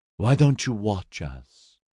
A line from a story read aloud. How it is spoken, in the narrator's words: she murmured